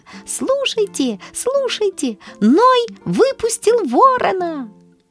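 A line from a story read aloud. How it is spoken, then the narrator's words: Loud shrill squeak. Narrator (Russian): Вдруг мышонок-разведчик запищал громко и пронзительно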